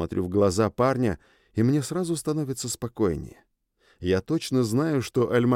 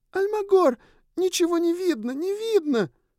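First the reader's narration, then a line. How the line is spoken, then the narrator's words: Squeaky girlish shouts. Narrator (Russian): изредка выкрикиваю все тем же девичьим писклявым голосом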